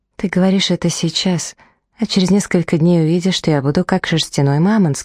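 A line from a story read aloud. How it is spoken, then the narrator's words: Plain. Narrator (Russian): сказала я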